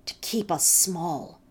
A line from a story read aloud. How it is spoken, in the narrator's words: she said to my brother bitterly